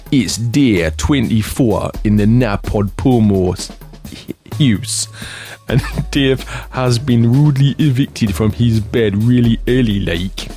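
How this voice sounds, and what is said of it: Put-on northeastern English accent. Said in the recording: “in a northeastern accent”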